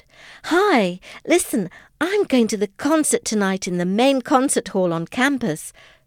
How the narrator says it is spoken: said excitedly

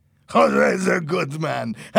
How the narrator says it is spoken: laughed

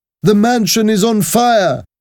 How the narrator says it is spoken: cried

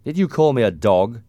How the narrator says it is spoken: asked angrily

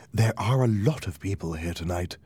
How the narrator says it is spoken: she whispered to me

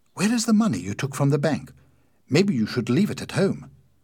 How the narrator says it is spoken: Suddenly, Winnie remembered the money and said quickly

